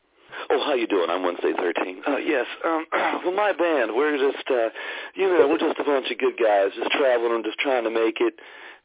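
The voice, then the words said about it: Fake car salesman interview voice. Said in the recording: “I'm not using a fake interview voice ... do this voice ... that fake car salesman voice”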